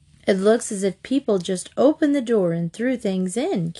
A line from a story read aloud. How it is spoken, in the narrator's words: Katie said